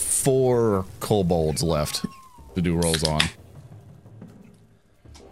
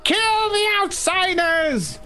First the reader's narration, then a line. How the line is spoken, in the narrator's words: Singed and burned by the blast, the cult leader looks on defiantly and starts screaming